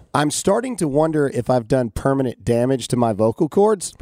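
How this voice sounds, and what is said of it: Hoarse, lost voice. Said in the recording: “I have laryngitis ... lost my voice ... This is what it sounds like”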